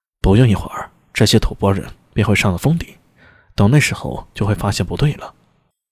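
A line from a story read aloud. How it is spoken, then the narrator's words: Murmuring. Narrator (Chinese): 安文生……喃喃说道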